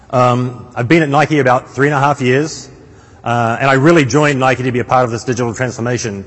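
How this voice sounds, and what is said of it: New Zealand accent. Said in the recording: “my strange accent comes from, I'm originally from a small town in the middle of the North Island, New Zealand”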